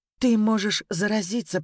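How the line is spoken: Agitated protest. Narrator (Russian): протестовала Даша взволнованно

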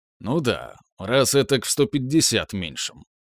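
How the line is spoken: Amused snort. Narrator (Russian): хмыкнул я

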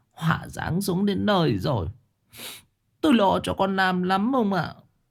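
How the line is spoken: Sobbing. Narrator (Vietnamese): Bà sụt sùi

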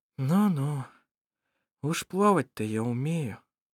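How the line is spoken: Sighing. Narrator (Russian): вздохнула Шира

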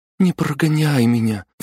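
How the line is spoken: Pleading. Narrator (Russian): взмолилась

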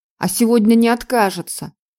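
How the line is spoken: Curt and angry. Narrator (Russian): Бернард говорил отрывисто и зло

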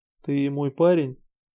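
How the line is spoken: Sudden quiet question. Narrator (Russian): вдруг тихо спросила

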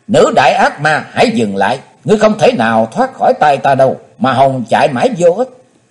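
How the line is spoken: Loud shout. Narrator (Vietnamese): Chí Tôn hét to

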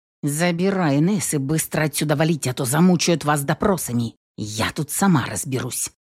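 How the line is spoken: Grumbling. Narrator (Russian): проворчала Тина

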